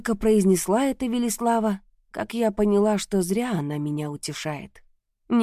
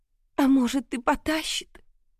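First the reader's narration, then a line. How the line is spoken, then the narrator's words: Tearful whisper. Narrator (Russian): прошептала сквозь слезы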